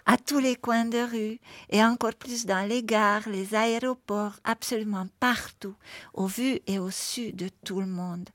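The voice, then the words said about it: Slight charming accent. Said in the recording (French): “un petit accent adorable”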